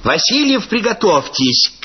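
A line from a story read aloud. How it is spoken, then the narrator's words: Shout from above. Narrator (Russian): крикнули сверху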